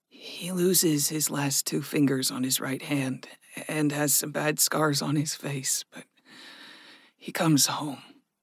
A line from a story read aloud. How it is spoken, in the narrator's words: Gregory whispered